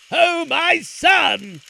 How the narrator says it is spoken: cried the sultan

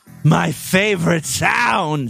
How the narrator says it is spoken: she groaned huskily

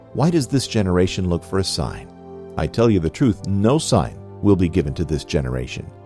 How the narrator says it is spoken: Sighing deeply in his spirit, he said

